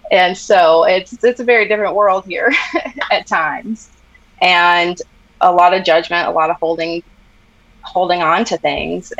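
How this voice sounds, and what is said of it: American Southern accent. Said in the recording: “I'm sure you can tell by my voice, but I live in the South.”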